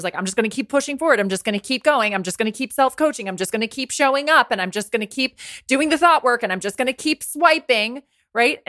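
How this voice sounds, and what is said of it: Anxious, pressurized delivery. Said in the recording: “you can tell by my voice, it comes from this really anxious, pressurized place”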